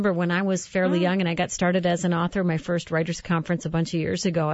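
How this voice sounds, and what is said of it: Usual voice. Nothing is said of it.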